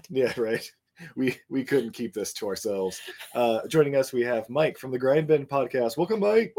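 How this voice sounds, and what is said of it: Deeper voice from a cold. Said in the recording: “my voice is a little deeper than usual. ... I'm finding a little cold”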